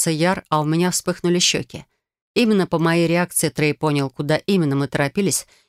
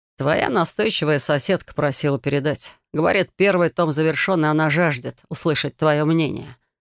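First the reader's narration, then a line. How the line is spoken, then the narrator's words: Amused snort. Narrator (Russian): хмыкнул Трей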